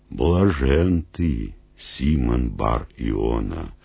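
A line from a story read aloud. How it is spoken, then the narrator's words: Solemn. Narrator (Russian): торжественно проговорил Иисус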